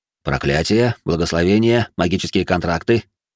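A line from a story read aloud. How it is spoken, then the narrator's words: Dry clarification. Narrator (Russian): сухим тоном уточнил Морцех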